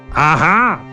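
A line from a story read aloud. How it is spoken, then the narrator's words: Loud from behind. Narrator (Russian): громко прозвучало сзади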